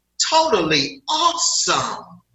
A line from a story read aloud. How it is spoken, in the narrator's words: The little boy, with eyes big as saucers, lit up and exclaimed